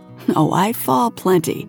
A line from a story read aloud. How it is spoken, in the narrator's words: he laughs